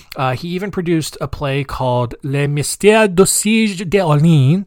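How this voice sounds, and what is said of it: Bad put-on French accent. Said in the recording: “that's a bad French accent.”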